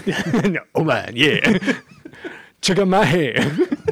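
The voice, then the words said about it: Johnny Bravo cartoon character voice. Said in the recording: “he's going to be like Johnny Bravo”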